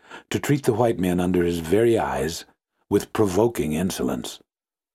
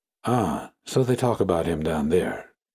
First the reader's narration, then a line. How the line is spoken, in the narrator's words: murmured to himself